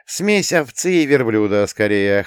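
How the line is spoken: Chuckling explanation. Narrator (Russian): хохотнул я и пояснил

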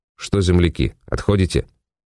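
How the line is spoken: Plain. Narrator (Russian): спросил их я

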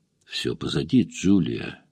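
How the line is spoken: Quiet. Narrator (Russian): тихо сказал Тед

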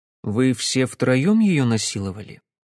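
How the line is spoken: Quiet question. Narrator (Russian): тихо спросил я наконец

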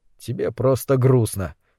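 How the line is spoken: Quiet. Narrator (Russian): негромко сказал Кэл

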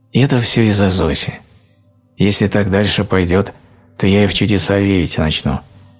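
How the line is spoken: Calm, smiling reply. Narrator (Russian): спокойно улыбаясь, ответил Виктор

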